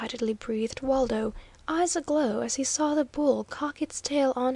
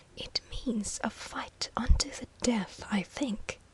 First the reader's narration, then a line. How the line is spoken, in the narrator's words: whispered the professor